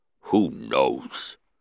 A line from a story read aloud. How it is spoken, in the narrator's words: The Hutt grunted